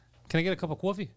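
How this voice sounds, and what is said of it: New York accent, coffee with W. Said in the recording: “the New York accent ... how they say coffee. They add a W”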